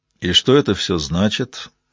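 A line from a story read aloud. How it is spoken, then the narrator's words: Sullen, chewing gum. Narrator (Russian): угрюмо спросил Гаррет Дюпон, лениво жуя резинку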